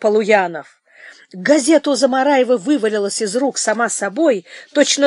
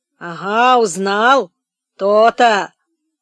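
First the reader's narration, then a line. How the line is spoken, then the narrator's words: Confused mumbling. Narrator (Russian): Замараев растерянно бормотал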